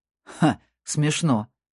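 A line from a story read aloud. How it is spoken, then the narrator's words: Growling. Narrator (Russian): прорычал Дирк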